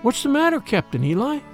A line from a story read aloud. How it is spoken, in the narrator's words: she exclaimed